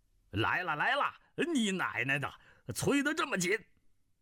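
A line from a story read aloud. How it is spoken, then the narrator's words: Shouting. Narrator (Chinese): 南海恶神叫道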